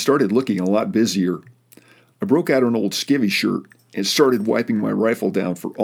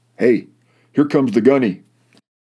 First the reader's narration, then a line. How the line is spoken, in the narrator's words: Suddenly, somebody called out from the stern